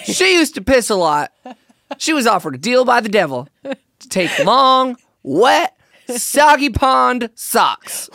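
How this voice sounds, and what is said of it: Put-on Southern American accent. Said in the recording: “Why would you have a southern accent?”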